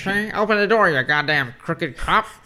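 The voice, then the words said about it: Old-time gangster villain voice. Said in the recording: “You're a fucking Dick Tracy villain, dude.”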